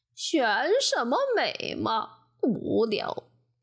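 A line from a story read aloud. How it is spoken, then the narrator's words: Gloomy sigh. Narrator (Chinese): 乌鸦闷闷不乐地叹气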